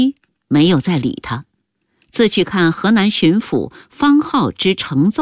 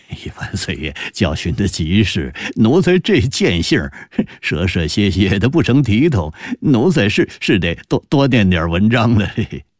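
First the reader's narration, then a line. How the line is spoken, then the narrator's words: Ingratiating nervous laugh. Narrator (Chinese): 何贵柱陪笑道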